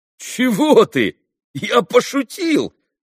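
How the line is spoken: Cried out. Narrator (Russian): вскрикнул Митя

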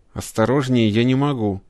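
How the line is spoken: Through gritted teeth. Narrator (Russian): сквозь зубы ответил практикант

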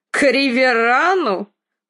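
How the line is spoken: Snorting. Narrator (Russian): Фрей фыркнул

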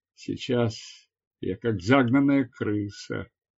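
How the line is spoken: Muttered. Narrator (Russian): пробормотал он

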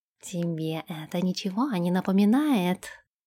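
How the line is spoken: Purring in ear. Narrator (Russian): промурлыкал он ей на ушко

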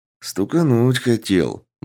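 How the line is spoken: Officer's gruff grumble. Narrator (Russian): буркнул подполковник

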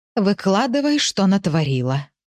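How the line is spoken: Hoarse. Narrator (Russian): Сказала она хрипло

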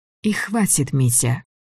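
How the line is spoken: Soft, gentle. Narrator (Russian): сказала Лидия мягко

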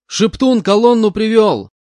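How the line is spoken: Shouted. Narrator (Russian): крикнул я

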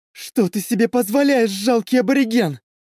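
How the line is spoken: Shrieked. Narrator (Russian): взвизгнула

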